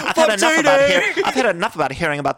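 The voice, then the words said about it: Attempted Irish accent. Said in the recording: “I was doing this Irish accent on my show recently, and like that's all I can do now is just an Irish accent.”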